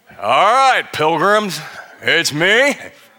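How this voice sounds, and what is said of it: Weak John Wayne impression. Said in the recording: “rooted somewhere deep in the heart of John Wayne ... It's not a very good imitation, by the way, either.”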